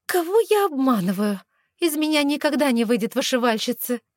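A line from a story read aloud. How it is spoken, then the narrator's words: Exasperated cry in pain. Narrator (Russian): В сердцах воскликнула я, когда боль от иглоукалывания стала особенно невыносима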